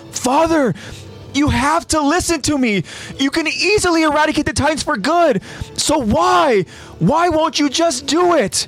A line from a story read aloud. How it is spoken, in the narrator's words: a young Rod Rice in a prison cell yelling out to his father